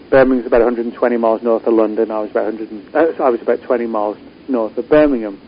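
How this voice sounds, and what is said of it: British English accent. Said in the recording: “such an interesting accent? I don't know if it's Australian or British. ... It's British.”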